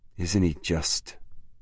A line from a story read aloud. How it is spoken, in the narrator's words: murmured Marie